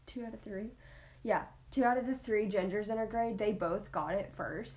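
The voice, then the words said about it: Country accent. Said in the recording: “She's saying gingers, not genders ... my good old country accent”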